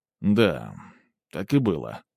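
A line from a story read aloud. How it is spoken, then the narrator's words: Mumbling. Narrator (Russian): промямлил я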